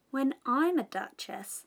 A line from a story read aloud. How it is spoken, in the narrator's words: she said to herself, not in a very hopeful tone though